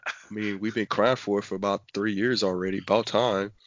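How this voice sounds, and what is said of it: Imitates another person's voice. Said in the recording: “I did my Mark voice.”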